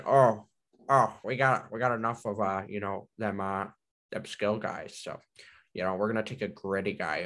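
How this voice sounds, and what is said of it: Nervous old hockey-man voice. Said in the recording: “I don't know what like impersonation you're trying to do there. Like it sounds like old ... hockey man ... he kind of sounds like he's nervous all the time ... I sounded like I was nervous.”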